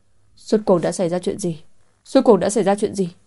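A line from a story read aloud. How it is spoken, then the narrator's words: Loud panicked trembling shout. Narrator (Vietnamese): Anh hét lớn, trong lòng hoảng hốt đến cùng cực, người cũng run rẩy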